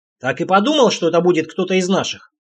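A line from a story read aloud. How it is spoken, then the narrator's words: Grumbling while chewing. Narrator (Russian): пробурчал Олег, не отрываясь от куска вяленого мяса и пресной лепешки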